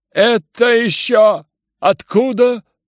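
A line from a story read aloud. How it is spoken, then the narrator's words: Laughing. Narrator (Russian): засмеялся Рогожин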